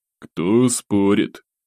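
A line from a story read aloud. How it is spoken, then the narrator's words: Prince's calm sigh. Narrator (Russian): спокойно вздохнул князь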